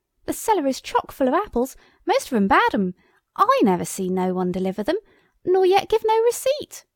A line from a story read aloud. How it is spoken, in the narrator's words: the startled cook exclaimed in the hall